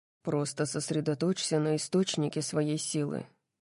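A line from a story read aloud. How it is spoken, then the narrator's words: Muttered. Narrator (Russian): пробормотал он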